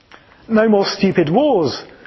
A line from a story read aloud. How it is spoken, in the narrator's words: exclaimed the young man